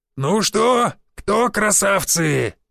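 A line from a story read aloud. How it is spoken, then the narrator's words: Yell. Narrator (Russian): заорал Шишаков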